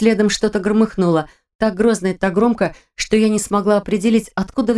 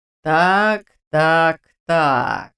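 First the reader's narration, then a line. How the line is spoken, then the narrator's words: Drawl. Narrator (Russian): протянул управляющий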